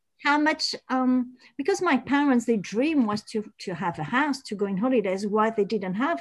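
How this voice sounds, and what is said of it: French accent. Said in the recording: “French accent. That's gorgeous.”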